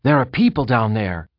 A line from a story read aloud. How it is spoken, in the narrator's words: Trefin Maurys shouted suddenly